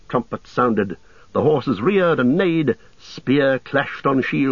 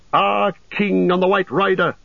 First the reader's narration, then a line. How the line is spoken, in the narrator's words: they shouted